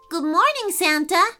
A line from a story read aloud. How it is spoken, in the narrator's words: said Bryant cheerfully